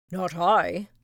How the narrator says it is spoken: barked the lazy dog

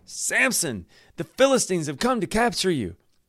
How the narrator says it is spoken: Delilah cried out again

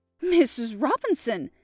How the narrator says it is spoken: I gasped

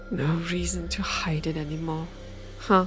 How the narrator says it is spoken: She groaned and felt another pang of despair

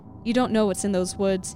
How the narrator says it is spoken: yelled at

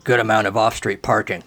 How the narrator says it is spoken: the biscotti baker grunted

